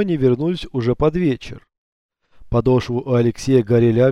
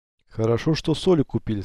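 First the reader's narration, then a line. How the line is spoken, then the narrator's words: Plain. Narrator (Russian): сказал Алексей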